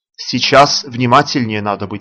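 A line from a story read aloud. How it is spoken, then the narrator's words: Plain. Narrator (Russian): сказал комендант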